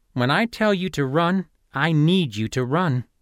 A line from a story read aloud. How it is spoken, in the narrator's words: Fitz said, gently